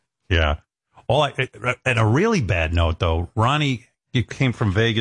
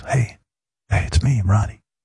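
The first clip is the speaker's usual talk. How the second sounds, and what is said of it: Whispering. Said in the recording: “what's he whispering for?”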